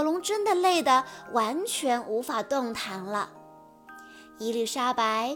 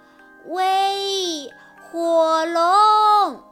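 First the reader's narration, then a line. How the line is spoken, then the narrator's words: Shouting as loud as possible. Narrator (Chinese): 尽可能大声地喊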